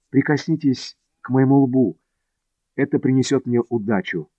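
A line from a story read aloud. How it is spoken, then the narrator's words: Shy, suddenly bold quiet request. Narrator (Russian): залился краской и, охваченный внезапной смелостью, тихонько попросил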